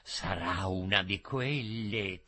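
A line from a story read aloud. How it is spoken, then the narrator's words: Furtive whisper. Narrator (Italian): sussurrò nascostamente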